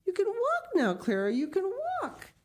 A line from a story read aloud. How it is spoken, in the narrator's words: she continued gleefully to exclaim